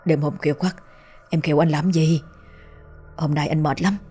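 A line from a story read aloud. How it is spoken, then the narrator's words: Sleepy mumble. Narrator (Vietnamese): Hà đang ngủ say, tưởng vợ muốn thân mật nên lầm bầm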